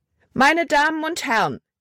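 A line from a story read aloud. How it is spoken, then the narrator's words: Loud call. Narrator (German): rief sie laut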